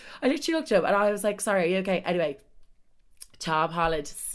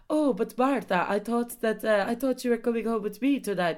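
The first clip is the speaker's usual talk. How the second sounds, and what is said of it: Vague Spanish, French or Italian accent. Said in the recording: “Casper is Dutch, and I wish I could do a Dutch accent, but I literally can't do it. So I feel like I'm just gonna have to do my traditional like Spanish, French, Italian, whatever accent I do. I don't even know what it is”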